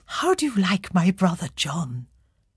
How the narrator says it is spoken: She paused before whispering into Catherine's ear

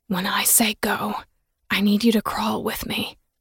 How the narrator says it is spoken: he whispered

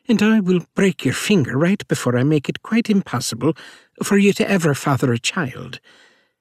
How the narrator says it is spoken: Rose said with an Irish accent

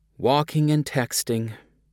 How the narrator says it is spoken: a flight attendant said with a sigh

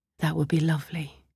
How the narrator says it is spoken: murmured

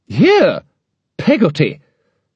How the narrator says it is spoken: cried Miss Betsy

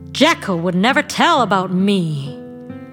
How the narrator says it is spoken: snapped

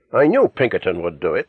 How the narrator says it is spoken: exclaimed triumphantly

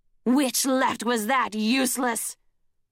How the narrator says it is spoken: Kestrel bellowed in his ear

